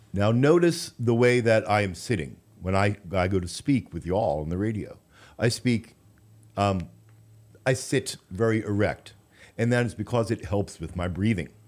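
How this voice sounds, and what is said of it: Polished radio announcer voice. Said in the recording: “when I'm using my radio voice as I am right now”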